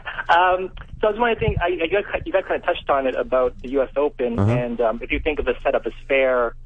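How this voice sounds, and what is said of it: Canadian accent. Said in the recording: “You sound Canadian. ... Oh, I'm Canadian, yeah.”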